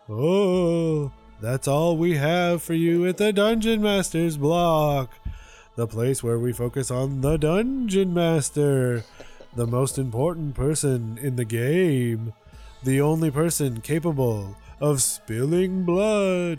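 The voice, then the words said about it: Creepy spooky host voice. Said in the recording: “do a creepy voice.”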